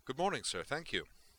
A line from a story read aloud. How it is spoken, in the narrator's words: said Prescott cheerfully